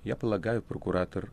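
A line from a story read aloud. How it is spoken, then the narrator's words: Plain. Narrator (Russian): ответил гость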